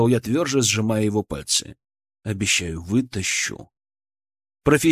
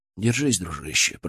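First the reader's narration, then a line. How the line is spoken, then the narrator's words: Whisper. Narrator (Russian): прошептал я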